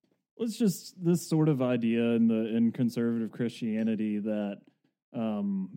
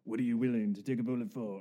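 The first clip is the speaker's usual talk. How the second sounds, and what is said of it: Poor imitation of another person's voice. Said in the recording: “I wish I could do a Charles Bronson voice ... That was terrible.”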